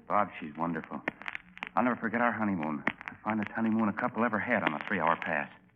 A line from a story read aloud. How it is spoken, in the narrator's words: lovingly and whispered